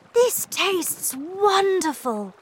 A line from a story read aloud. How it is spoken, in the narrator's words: cried Charlie